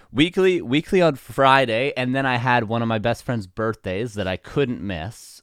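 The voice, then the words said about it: Hoarse, nearly lost voice. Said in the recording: “I've been sick ... absolutely lose my voice, and I was pretty close to that happening this weekend ... to be talking like this ... losing my voice”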